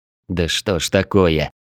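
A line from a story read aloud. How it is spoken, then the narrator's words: Muttered under breath. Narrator (Russian): Пробурчал я себе под нос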